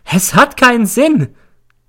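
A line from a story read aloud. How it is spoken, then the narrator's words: Shrieking. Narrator (German): kreischt sie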